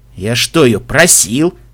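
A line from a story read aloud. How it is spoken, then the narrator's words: Offended snort. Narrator (Russian): обиженно фыркнул Себрастиан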